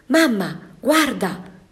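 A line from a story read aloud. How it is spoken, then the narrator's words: Young boy exclaiming. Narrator (Italian): esclamò un ragazzino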